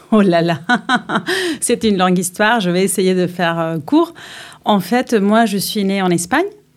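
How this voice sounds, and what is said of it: Singsong foreign accent. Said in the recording (French): “ton accent est chantant”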